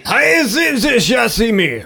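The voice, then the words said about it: Mock Japanese accent. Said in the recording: “That was a good accent... a good accent... a perfect accent... but it wasn't actual words”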